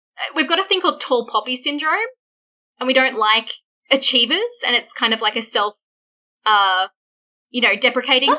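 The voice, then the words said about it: Twangy Australian accent. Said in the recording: “I have like an Australian... my own accent, I'm like, you twangy fucking valley girl bitch”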